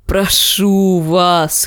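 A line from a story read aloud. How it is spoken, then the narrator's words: Hoarse wheeze, dog. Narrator (Russian): хрипел пес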